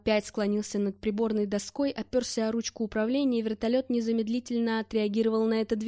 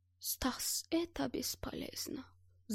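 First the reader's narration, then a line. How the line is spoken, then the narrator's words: Sigh. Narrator (Russian): вздохнул Гельмут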